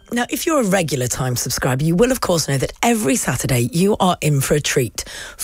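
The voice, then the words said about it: Hoarse voice, slightly losing it. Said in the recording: “I've had a terrible cold this week and I know I'm losing my voice slightly here”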